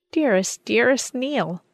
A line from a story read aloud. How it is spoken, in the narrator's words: cried